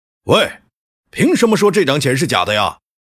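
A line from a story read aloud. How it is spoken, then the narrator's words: Big young man roaring. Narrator (Chinese): 一个人高马大的男生对着秋收吼道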